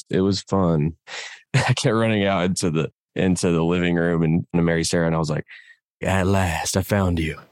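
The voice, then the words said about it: Low, worn-out morning voice. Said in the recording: “it's really early and my voice is kind of gone... Those low morning voices”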